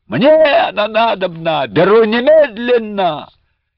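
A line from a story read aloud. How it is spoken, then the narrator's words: Hot-blooded wail. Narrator (Russian): казак самых горячих кровей как завопит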